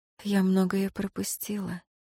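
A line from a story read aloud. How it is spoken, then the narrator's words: Sad sigh. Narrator (Russian): грустно вздохнула Ирейн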